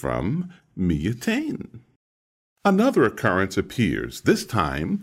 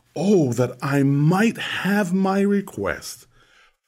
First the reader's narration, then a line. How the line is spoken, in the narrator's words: Job exclaims